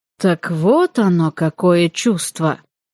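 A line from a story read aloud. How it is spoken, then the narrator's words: Thoughtful drawl in dialect. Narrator (Russian): задумчиво протянул он на диалекте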